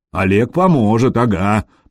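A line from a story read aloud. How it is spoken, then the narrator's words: Grumbling. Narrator (Russian): проворчал Гадимир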